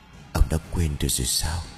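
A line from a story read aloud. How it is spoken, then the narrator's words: Whisper in the ear. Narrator (Vietnamese): Cái dáng người bí ẩn áp sát lỗ tai của lão rồi thì thầm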